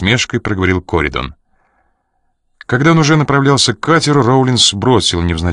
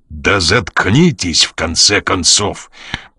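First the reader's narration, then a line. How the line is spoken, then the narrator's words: Growled. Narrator (Russian): прорычал Коридон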